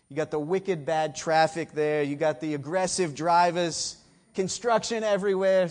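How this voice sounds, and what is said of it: Boston accent. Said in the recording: “had to go back to that Boston accent for a moment”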